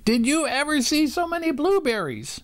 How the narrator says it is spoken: cried Benny

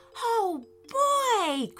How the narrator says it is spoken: cried Harry

